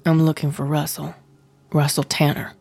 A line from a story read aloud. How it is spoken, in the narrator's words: said Lewis